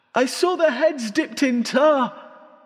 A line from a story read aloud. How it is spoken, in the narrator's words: shouting